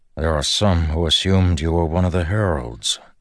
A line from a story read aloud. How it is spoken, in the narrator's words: Dalinar noted